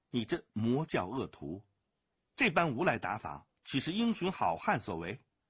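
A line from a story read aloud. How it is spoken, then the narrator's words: Angry. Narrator (Chinese): 武清微怒指独孤剑道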